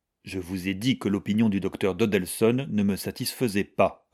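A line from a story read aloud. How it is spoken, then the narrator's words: Cold young man. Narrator (French): répondit froidement le jeune homme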